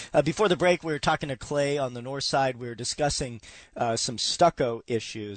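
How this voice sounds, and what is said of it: Hoarse, crackly voice from illness. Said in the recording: “Excuse my voice this morning. I'm a little bit under the weather... excuse if my voice crackles or if I have to cough”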